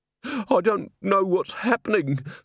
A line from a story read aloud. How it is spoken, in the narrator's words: sobbed Mrs